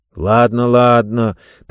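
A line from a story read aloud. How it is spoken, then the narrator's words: Conciliatory grumble. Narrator (Russian): примирительно пробурчал Хэмми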